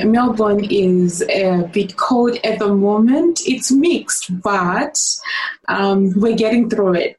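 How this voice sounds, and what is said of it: Non-Australian accent. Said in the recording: “from your accent, we can tell that you're not originally from Australia”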